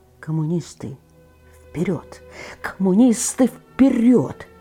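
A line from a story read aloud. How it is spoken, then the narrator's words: Barely audible, young man. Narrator (Russian): еле слышно сказал молодой инженер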